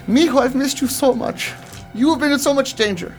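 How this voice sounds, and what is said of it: Put-on Mexican accent, motherly voice. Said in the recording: “What accent is that?... Like spot on... It's almost like a Mrs. Mexican Doubtfire.”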